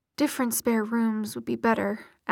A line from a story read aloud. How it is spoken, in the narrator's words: Alec muttered